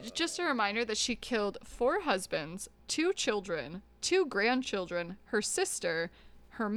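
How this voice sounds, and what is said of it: Usual voice. Nothing is said of it.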